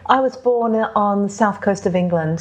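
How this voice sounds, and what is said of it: English accent. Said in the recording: “So that's a British accent. ... So somewhere in there is a British accent, ... An English accent even.”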